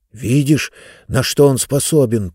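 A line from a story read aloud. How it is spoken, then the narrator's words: Whisper. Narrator (Russian): прошептал Хэми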